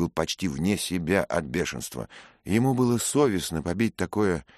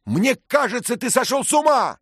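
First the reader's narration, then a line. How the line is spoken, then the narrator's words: Shouted. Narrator (Russian): крикнул он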